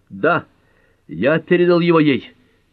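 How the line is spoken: Shouting. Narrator (Russian): крикнул он

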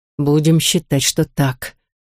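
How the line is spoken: Speaking through gritted teeth. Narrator (Russian): процедил Мерлин

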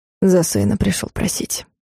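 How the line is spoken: Gruff mutter. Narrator (Russian): буркнул Дарс

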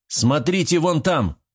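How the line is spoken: Shout. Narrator (Russian): крикнул Шифер

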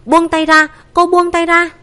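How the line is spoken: Angry shout. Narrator (Vietnamese): tiếng hét tức giận của Thương Triều Tông

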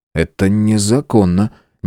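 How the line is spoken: Uncertain. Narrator (Russian): неуверенно произнес

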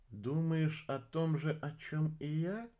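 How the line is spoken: Quiet question. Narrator (Russian): тихо спросила Грик

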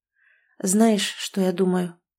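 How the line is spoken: Low, musing voice. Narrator (Russian): вполголоса, будто размышляя, произнесла Аманда, устало

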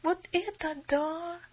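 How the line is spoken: Amazed exhale. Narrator (Russian): Широко раскрыв глаза, выдохнула Поллианна

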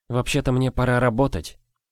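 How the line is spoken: Quiet. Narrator (Russian): тихо сказала я

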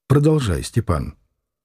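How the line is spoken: Quiet. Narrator (Russian): Спивак тихо сказала

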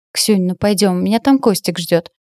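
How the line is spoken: Rapid chatter. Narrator (Russian): тараторит Ришка

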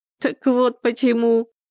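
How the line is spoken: Toothless lisp. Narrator (Russian): Прошепелявила она наполовину беззубым ртом

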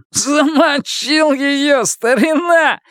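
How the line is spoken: Yelled. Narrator (Russian): завопил тычок

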